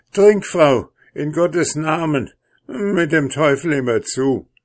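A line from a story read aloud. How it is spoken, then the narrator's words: Frantic, desperate cry. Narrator (German): überkam es den König wieder wie Wahn und Verzweiflung, und er rief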